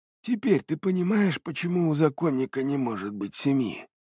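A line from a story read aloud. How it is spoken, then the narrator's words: Calm, ingratiating. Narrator (Russian): Спокойным и вкрадчивым голосом поинтересовался Иваньков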